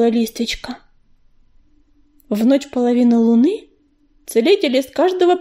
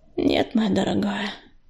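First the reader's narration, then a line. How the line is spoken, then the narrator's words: Sighing. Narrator (Russian): вздохнула она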